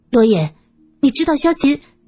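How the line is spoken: Shouted. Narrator (Chinese): 苏三喊道

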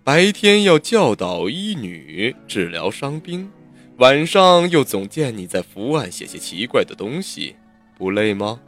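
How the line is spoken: Gentle, smiling. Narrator (Chinese): 他笑笑，柔声道

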